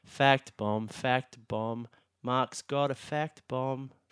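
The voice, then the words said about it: Sung in a bored voice. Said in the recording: “you've got to sing it in a really bored voice.”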